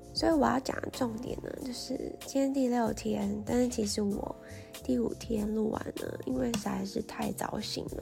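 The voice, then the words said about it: Sleepy, unusual-sounding voice. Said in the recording (Chinese): “我的声音现在虽然听起来是这样，可是其实我声音没有变很多，只是因为我该睡觉了。所以声音听起来就是 跟常常听到的不太一样”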